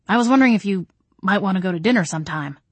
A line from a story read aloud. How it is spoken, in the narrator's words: Adam blurted